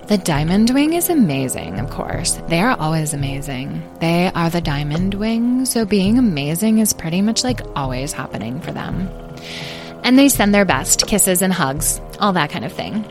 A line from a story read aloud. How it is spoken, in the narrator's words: added Citrine coolly